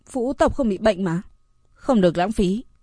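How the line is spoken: Mutter. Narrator (Vietnamese): Phượng Tử Vũ lẩm bẩm

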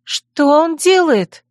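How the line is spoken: Frightened cry. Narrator (Russian): испуганно вскрикнула Мирена

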